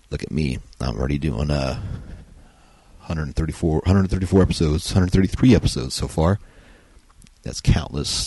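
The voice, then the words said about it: Tired-sounding voice. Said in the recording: “my voice sounds a little bit tired today”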